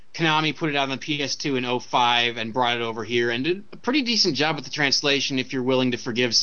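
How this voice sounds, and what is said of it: Usual voice. Nothing is said of it.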